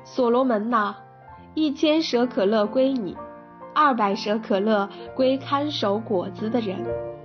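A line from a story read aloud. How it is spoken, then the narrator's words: Sighing exclamation. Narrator (Chinese): 她感叹道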